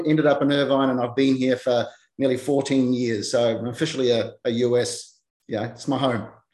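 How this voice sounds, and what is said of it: New Zealand accent. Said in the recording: “My original step was from New Zealand. So that's where you'll pick up the accent straight away ... I'm a huge fan of the accent ... A voice of gold”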